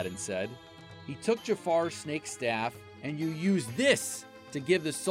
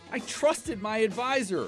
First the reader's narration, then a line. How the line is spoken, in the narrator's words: the Sultan cried